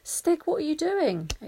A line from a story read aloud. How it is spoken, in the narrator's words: exclaimed Barney